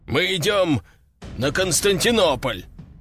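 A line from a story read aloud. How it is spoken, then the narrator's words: Deep bass voice. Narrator (Russian): пробасил вице-адмирал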